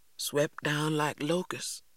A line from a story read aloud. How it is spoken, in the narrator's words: he continued in a faraway voice